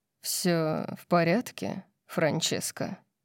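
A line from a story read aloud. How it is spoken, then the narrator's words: Velvety voice. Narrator (Russian): спросил Орион бархатным голосом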